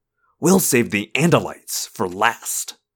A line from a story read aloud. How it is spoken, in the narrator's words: he hissed